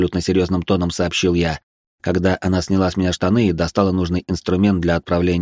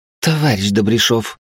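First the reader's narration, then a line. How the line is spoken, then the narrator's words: Through gritted teeth. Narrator (Russian): процедила она сквозь зубы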